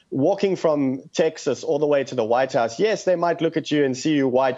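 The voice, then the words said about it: South African accent. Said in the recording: “South Africans who still have an accent ... if you can hear it, I've got an accent as well”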